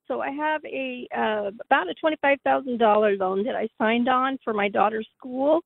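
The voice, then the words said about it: Congested voice. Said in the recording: “Sorry, I have a cold.”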